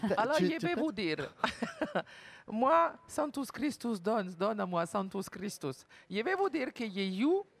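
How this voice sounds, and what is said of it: Fake mixed Portuguese-Italian accent. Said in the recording (French): “cet accent pourri? ... On dirait une portugaise, mais tu sais, mélangée. ... Mélangée d'une brésilienne, italienne. ... le petit accent”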